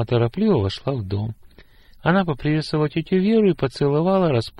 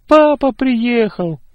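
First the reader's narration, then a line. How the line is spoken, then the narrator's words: Sudden cry. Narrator (Russian): вдруг вскрикнул Тимур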